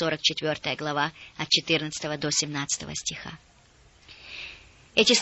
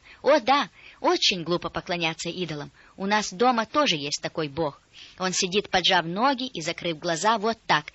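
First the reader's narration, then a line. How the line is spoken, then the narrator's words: Girl exclaiming. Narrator (Russian): девочка воскликнула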